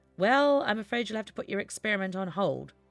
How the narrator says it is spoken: chuckled Scarth

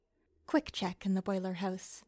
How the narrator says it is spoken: she muttered

